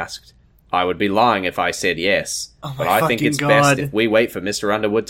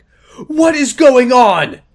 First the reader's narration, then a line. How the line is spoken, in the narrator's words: She shouted